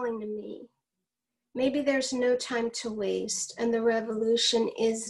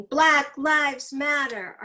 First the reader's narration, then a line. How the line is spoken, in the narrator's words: the young people taking to the streets shouting